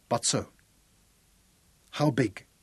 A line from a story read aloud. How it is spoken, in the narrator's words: His voice roughened and dried, so that he had to clear his throat